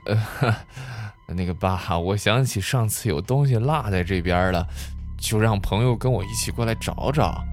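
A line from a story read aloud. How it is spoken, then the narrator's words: Awkward dry laugh. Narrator (Chinese): 谢如秀干笑了一声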